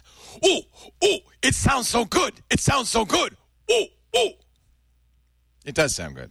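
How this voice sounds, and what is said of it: Bad impression of John Slanina. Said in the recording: “here's my impression of John Jammer B. Slanina ... That's terrible.”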